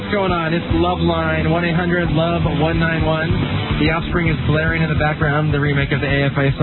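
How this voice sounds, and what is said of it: Usual voice. Nothing is said of it.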